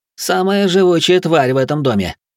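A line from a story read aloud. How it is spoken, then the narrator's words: Snorting. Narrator (Russian): Гринривер хмыкнул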